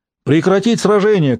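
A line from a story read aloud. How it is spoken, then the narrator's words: Shouted command. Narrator (Russian): крикнул Хмельницкий по-татарски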